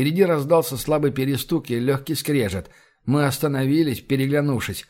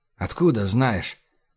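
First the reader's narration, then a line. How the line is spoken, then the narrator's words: Quiet question. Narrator (Russian): так же тихо спросил я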